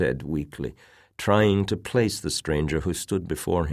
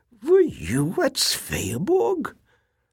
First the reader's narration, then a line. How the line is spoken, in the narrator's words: The visitor laughed